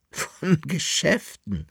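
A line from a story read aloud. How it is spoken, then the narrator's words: Laughing. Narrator (German): lachte die Dame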